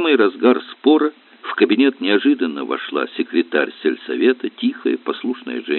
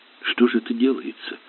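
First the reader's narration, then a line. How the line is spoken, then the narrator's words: Frightened. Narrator (Russian): испуганно проговорила она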